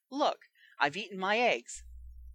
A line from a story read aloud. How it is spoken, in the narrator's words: he began, almost desperately